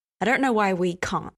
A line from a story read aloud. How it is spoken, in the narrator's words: Dean said harshly